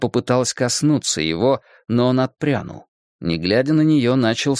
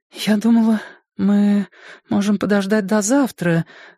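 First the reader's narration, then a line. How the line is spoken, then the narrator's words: Timid. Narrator (Russian): робко начала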